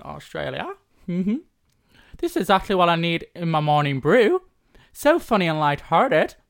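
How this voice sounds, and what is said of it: Poor attempt at Australian accent, robotic. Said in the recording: “let's see if you can be better than Sam at the accent... Australia via where?... Like Stephen Hawking.”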